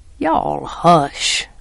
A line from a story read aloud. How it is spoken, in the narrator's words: growled Jem